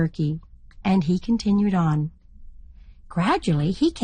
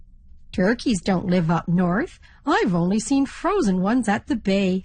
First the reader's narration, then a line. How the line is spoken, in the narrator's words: laughed the ferry captain